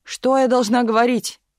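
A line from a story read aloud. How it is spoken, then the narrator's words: Shouted. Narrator (Russian): крикнула в выступлении Галина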